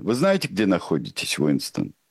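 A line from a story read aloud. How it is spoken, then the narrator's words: Plain. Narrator (Russian): спросил он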